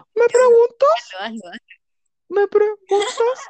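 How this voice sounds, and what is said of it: Cute kitten-like voice. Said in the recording (Spanish): “Con cara de gatito, por favor. Trata de imitar la voz del gatito.”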